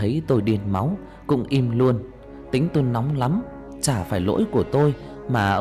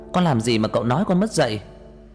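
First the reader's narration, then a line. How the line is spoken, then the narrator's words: Enraged shout. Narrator (Vietnamese): Tôi điên lên hét lên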